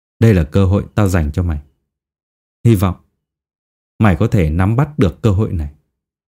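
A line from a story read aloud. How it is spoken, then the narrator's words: Dark, cold voice. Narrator (Vietnamese): nói bằng một giọng âm u lạnh lẽo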